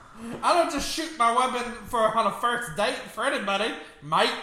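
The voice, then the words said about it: Inconsistent put-on Australian accent. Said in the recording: “That accent's all over the place. Where are you from? ... You're making him sound Australian.”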